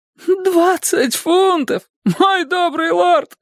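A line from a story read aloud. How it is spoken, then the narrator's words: Sharp cry. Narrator (Russian): вскрикнул Кондул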